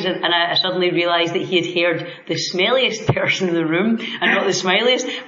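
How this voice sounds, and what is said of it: Scottish accent. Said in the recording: “you do have a great Scottish accent.”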